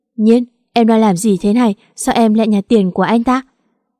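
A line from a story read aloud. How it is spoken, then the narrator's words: Slightly sharp voice. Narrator (Vietnamese): giọng nói có chút gắt lên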